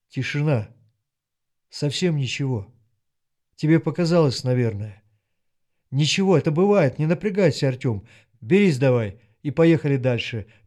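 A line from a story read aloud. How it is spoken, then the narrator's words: Gentle commander's voice. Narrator (Russian): мягко чувствуя ситуацию, сказал командир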